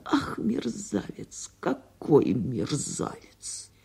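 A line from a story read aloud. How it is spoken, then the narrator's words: Muttering woman. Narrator (Russian): Она бормотала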